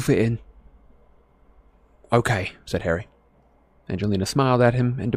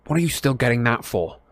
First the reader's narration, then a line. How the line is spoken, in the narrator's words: said Harry irritably